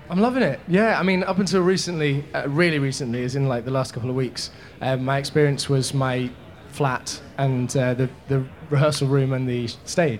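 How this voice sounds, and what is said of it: English accent. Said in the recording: “you have a very cute accent, as do I ... in England”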